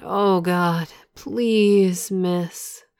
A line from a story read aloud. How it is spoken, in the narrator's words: Moaning, he said